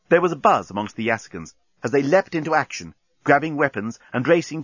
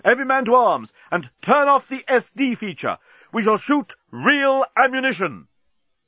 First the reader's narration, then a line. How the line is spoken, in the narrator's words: yelled Bolthas